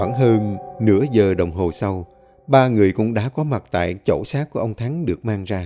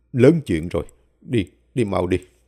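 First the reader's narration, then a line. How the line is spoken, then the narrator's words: Worried mutter. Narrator (Vietnamese): Thầy Lý than thở, miệng lẩm bẩm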